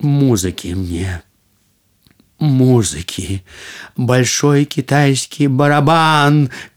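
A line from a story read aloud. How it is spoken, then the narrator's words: Shout. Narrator (Russian): кричал он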